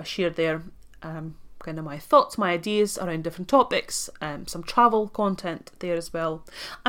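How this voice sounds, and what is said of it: Latvian accent with Scottish influence. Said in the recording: “my accent ... some of you might be listening and thinking something is weird, but I can't tell what. So I'm actually from Latvia ... I'm from Russian family ... I have spent a significant amount of time in Scotland”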